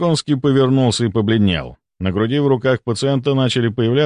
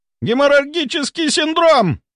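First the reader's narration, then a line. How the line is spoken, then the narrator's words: Shrill shriek. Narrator (Russian): Голос Волконского поднялся до визга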